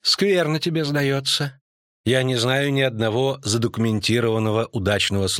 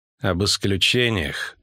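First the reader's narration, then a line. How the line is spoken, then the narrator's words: Cold reply. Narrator (Russian): холодно ответила богослужительница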